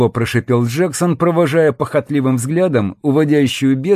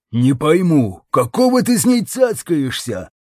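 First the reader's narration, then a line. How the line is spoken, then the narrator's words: Angry growl. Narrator (Russian): злобно прорычал он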